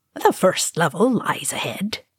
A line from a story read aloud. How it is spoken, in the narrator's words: he murmured